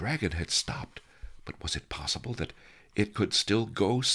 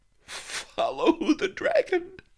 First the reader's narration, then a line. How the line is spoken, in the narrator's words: I giggled